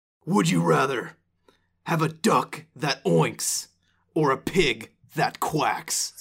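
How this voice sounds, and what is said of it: Intense Batman character voice. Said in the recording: “in a Batman voice. ... I'm not ready for this voice. ... So intense. You made it so much more intense than it would have been.”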